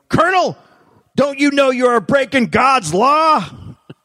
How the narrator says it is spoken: Corbett yelling

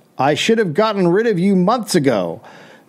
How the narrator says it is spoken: when Soapy saw Reed, he yelled

